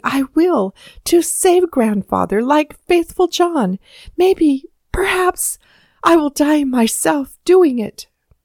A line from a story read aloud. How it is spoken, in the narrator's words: the child said excitedly